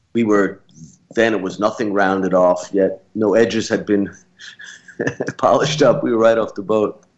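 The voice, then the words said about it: Brooklyn accent. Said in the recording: “They love the Brooklyn accent there.”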